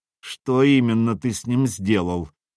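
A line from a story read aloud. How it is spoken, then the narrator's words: Spoke through teeth. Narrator (Russian): процедил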